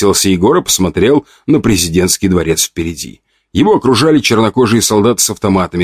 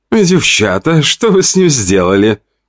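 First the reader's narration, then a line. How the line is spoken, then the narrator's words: Giggling. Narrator (Russian): хихикала Любава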